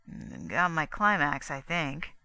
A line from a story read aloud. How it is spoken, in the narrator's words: Gusterson mumbled, still peering puzzledly